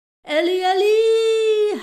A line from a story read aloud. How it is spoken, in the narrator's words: howled Buck